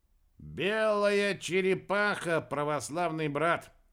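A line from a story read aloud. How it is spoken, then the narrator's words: Loud, proud. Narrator (Russian): Громко произнес серп и с гордостью добавил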